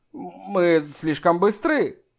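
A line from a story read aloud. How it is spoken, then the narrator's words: Exclaimed. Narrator (Russian): Воскликнул Джан Ян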